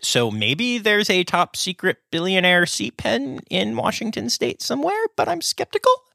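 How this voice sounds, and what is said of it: Voice rising high in pitch. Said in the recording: “my voice is getting really high”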